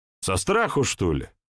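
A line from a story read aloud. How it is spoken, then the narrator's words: Angry smirk. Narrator (Russian): зло усмехнулся Иван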